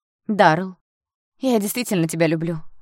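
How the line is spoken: Exclaiming girl. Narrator (Russian): воскликнула девушка

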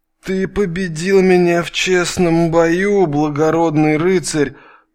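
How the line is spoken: Mumbling through bloodied lips. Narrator (Russian): Прошамкала Татьяна разбитыми в кровь губами

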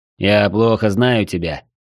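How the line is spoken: Grumbling foreman. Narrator (Russian): проворчал десятник

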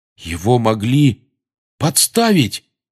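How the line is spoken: Exclamation. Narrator (Russian): воскликнул Рон

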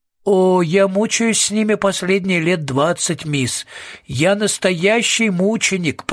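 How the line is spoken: Groaning. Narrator (Russian): простонал кучер

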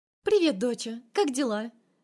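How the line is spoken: Cheerful voice over phone. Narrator (Russian): Бодро звучит в трубке ее голос

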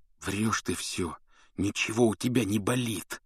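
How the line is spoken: Hissed. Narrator (Russian): прошипел он

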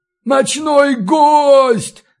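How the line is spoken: Yelled. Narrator (Russian): заорал Балин

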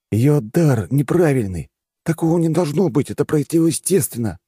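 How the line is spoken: Exclaimed. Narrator (Russian): воскликнул он

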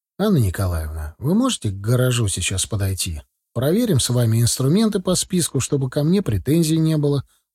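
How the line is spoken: Calm suggestion. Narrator (Russian): уже спокойно предложил я

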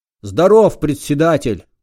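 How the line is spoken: Gruff bark. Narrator (Russian): гаркнул новоприбывший

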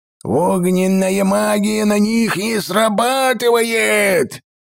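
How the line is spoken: Roaring. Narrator (Russian): взревел Глендаин Третий

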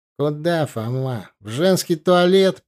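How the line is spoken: Snide question. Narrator (Russian): ехидно спросил Тимур

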